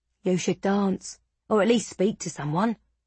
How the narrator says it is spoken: he said

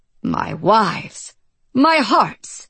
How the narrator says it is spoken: It was such a jubilant laugh

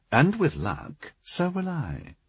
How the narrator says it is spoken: Spava murmured

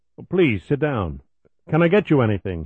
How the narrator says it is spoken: he asked urgently

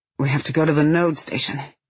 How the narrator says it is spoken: he blurts in a rusty voice

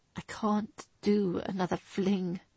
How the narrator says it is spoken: he admitted brokenly

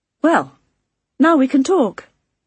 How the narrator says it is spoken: I said brightly

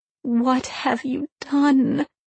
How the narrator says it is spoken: She asked, unbelieving, her voice breaking

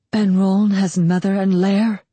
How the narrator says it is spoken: He asked hoarsely

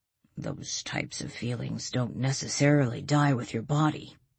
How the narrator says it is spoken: Walt said, his voice almost a whisper

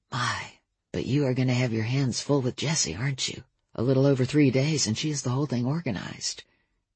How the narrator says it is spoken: bent down to whisper

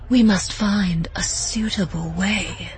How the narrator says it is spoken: Preeta said in a breathy whisper

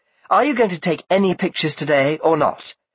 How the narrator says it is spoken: said Rosa crossly

